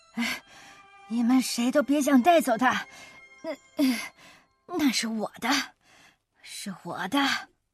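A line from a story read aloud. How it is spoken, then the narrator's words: Hoarse voice from behind. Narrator (Chinese): 身后传来一阵沙哑的声音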